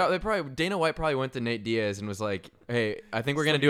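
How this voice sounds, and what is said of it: Usual voice. Nothing is said of it.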